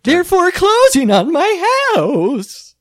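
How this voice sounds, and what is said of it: Sugary, happy cartoon candy voice. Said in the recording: “that candy happy language ... giving it that voice? It's from like that really actually quite a good ... Wreck-It Ralph.”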